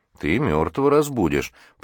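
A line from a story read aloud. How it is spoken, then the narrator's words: Grumbled. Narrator (Russian): проворчал Джим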